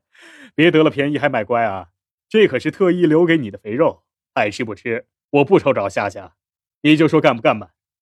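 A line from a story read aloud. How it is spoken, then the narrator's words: Loud hearty laugh. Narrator (Chinese): 肖冰朗声笑道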